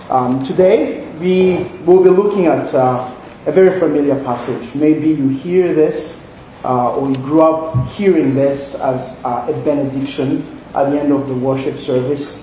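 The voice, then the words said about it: Central African (Congolese) accented English. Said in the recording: “If you can hear my accent, you can probably tell I'm not from here. I'm from the Congo, Central Africa.”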